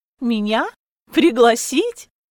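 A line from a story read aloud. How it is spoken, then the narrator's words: Laughing. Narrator (Russian): Я засмеялась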